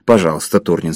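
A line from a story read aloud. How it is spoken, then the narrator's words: Plain. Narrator (Russian): сказал диспетчер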